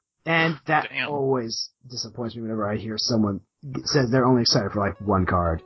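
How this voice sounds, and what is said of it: Hoarse, fading voice. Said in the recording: “I'm losing my voice ... lost his voice. down. The voice is gone.”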